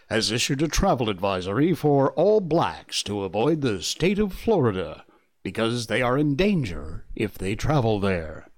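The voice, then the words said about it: Mock radio news announcer voice. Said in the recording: “in my best radio news voice”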